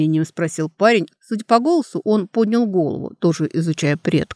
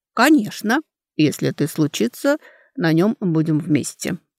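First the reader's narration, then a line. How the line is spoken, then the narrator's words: Thoughtful speech. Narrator (Russian): уже задумчиво сказал Корей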